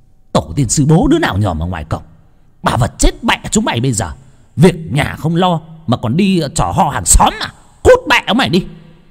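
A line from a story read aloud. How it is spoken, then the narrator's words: Shrieking from indoors. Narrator (Vietnamese): ở trong nhà, cô ba rít lên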